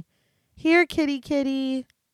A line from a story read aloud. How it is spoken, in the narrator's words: she calls out sweetly